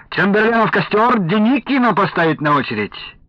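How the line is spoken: Cheerful exclamation. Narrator (Russian): Кто-то весело восклицал

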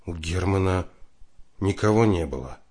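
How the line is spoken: Sighing. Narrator (Russian): вздохнул Федотов

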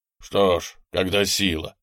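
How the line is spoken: Soldier grumbling. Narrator (Russian): проворчал солдат

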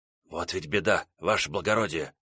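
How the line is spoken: Whisper. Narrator (Russian): прошептал филер

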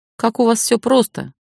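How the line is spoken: Grumble. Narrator (Russian): проворчал

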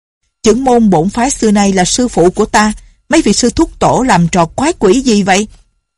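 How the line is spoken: Middle-aged man, loud. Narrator (Vietnamese): Một tên đạo nhân trung niên lớn tiếng nói

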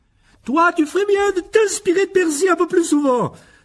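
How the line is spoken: Exclaiming. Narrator (French): s'écria Madame Wesley

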